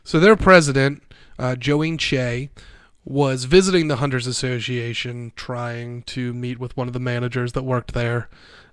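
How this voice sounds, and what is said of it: Congested, stuffy-nosed, slightly slurred voice. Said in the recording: “my nose is a little stuffed up, so like it sounds like I'm slurring my words a little bit”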